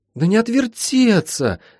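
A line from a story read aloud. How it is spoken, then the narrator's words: Pleading. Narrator (Russian): взмолилась Молли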